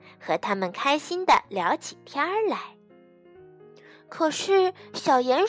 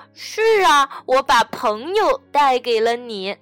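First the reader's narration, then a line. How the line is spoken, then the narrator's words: Grinning. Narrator (Chinese): 小鼹鼠咧开嘴笑道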